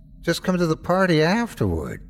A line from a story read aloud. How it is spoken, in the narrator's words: she whined